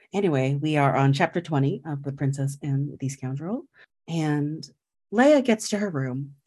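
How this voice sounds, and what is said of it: Public radio announcer voice. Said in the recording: “I ended up using an NPR voice tonight ... seeing how long I can keep this up.”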